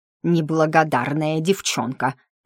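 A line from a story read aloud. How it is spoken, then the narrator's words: Words through gritted teeth. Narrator (Russian): процедила она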